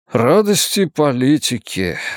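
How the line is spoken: Sighing. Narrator (Russian): вздохнул он

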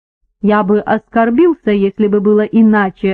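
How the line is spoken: Plain. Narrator (Russian): ответил я

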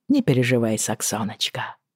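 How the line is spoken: Quiet. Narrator (Russian): тихо сказал Джейми

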